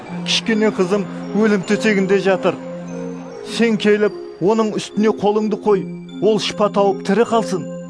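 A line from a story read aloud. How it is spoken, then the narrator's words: Earnest pleading. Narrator (Kazakh): деп қатты жалынды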